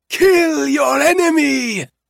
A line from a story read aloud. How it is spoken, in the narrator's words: it was Kellen who shouted it